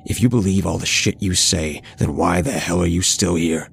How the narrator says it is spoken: I asked him in an aggressive tone

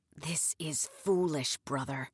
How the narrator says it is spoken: he whispered in Turkish

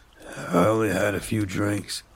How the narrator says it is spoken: he slurred

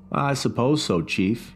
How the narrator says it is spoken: he said

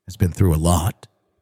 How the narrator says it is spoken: she said softly

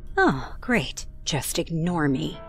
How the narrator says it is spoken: she mumbled

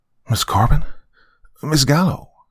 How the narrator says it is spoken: she breathed

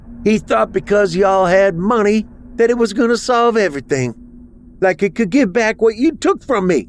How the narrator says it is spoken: Ruby screamed

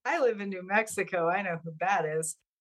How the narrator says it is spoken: laughed and I said

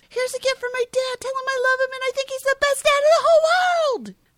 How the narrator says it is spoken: Buddy yells

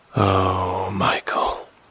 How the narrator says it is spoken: Elder Julius whispers

